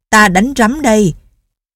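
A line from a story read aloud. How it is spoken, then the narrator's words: Yell. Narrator (Vietnamese): Tổ Thiên Thu la lên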